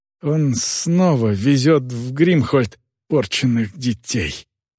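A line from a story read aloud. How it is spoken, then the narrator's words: Groaned. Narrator (Russian): наконец простонал он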